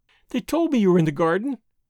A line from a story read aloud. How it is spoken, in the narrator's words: she went on, prattling merrily